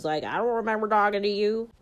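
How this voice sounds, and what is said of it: Put-on Southern US accent. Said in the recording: “I just did the southern accent”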